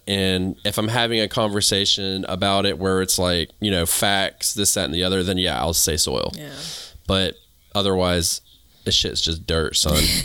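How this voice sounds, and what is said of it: Southern US accent. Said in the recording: “I sound like I'm from the South, right? You hear my accent, right?”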